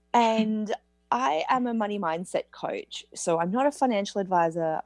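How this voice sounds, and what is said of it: Australian accent. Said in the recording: “I live in Australia, as you might have gathered by my accent.”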